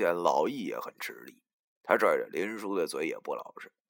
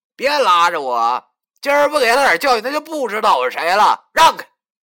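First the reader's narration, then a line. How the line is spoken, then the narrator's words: Shouting. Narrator (Chinese): 文书就对我喊着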